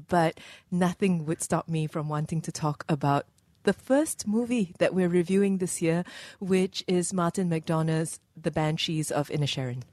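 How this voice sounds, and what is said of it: Unwell, affected speaking voice. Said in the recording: “apologize for my voice. I'm starting the new year with a bug”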